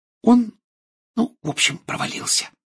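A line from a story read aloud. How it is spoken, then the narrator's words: Whispered. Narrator (Russian): прошептала Гермиона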